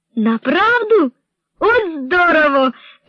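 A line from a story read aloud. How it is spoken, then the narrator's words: Exclamation. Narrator (Ukrainian): вигукнула Мейган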